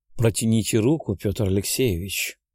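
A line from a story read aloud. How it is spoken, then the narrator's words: Gentle purr, woman. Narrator (Russian): ласково промурлыкала женщина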